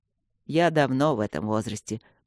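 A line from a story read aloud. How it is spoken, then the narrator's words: Grumbling mutter. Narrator (Russian): пробурчал Люк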